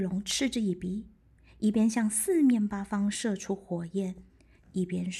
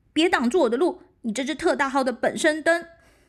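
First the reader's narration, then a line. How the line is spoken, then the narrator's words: Loudest roar. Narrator (Chinese): 用他能发出最大的声音大吼一声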